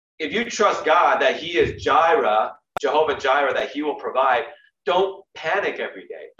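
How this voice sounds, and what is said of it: Preacher-style sermon voice. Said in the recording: “I'm just getting my little bit off preacher voice”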